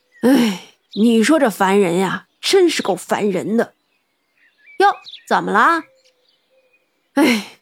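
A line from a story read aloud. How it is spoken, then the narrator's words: Sighing, annoyed. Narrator (Chinese): 他进来就叹口气道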